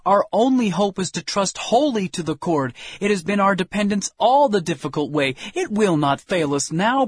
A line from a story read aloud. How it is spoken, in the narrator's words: we exclaimed